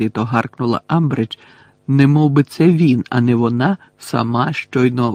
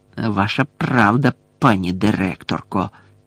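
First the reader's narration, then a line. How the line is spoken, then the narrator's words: Hissing. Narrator (Ukrainian): прошипів Філч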